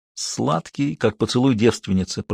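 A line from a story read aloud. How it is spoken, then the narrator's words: Muttered. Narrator (Russian): пробормотал он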